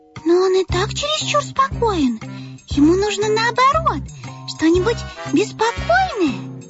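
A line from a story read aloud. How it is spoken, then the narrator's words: Overlapping squeaks, little mice. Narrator (Russian): наперебой запищали мышата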